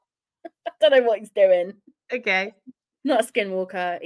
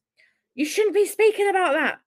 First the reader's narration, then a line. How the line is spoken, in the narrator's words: my grandma said with almost a disturbed yell in her voice